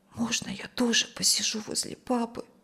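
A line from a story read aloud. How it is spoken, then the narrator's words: Whisper. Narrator (Russian): прошептала Юлия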